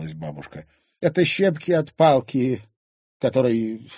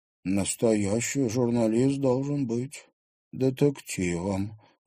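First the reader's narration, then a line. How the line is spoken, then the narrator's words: Thoughtful mutter. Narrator (Russian): задумчиво пробормотала Луиза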